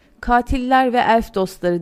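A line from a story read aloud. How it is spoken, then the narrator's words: Shouting. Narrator (Turkish): diye bağırdı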